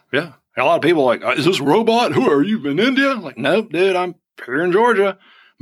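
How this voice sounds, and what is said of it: Southern US accent. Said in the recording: “my Southern accent ... If I have a Southern accent, I have a Southern accent.”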